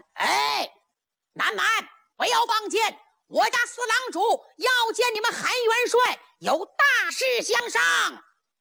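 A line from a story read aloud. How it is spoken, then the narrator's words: Hurried shout. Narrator (Chinese): 小帆忙喊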